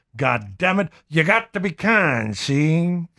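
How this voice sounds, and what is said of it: Put-on noir gangster accent. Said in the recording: “I think I'm mixing up my noir accent with my Muttley”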